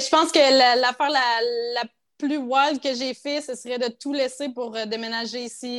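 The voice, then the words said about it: Quebec French accent. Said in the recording (French): “Et tu es québécoise parce que? ... Parce que mon, mon accent s'en va pas.”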